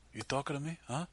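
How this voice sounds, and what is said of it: Rough Robert De Niro-style impression. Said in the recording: “Do you do a good De Niro accent? ... his traditional movie accent ... It's like it's pretty broken up.”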